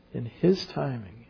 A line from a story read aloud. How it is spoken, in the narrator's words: he breathed his last